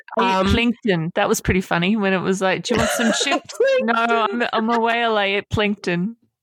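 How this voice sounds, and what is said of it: Bad put-on New Zealand accent. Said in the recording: “such a bad New Zealand accent.”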